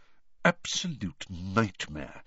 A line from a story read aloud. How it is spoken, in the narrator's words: said Bagman to Harry in an undertone